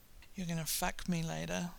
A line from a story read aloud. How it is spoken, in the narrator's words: Sam murmurs, a sweet slip-slide of words